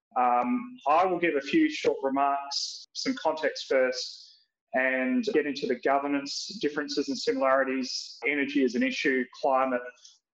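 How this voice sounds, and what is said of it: Australian accent. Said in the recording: “as you can tell from my accent, I'm obviously Australian”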